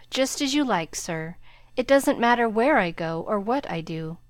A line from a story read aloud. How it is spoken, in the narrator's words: He sighed, and then said in a spiritless tone